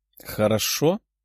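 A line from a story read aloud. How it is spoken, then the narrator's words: Smiling. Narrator (Russian): Даша улыбнулась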